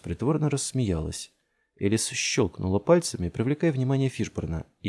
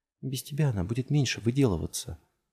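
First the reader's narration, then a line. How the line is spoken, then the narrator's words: Whisper. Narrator (Russian): прошептала Элис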